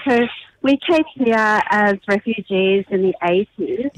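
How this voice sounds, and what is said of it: Australian accent. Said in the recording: “I have such an Australian accent.”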